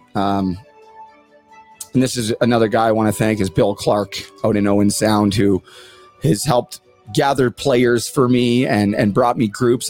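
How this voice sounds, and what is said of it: Teary, emotional voice. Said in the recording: “I'm a little teary-eyed right now.”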